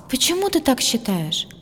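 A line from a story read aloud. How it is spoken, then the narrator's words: Sighed. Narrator (Russian): вздохнула Айлани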